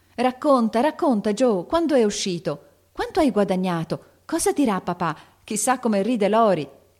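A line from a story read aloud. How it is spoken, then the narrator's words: Eager chorus of shouts. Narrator (Italian): gridavano tutte in coro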